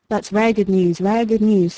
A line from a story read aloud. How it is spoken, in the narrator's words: said Malkin